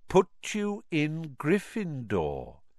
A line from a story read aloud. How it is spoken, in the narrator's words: said Dumbledore calmly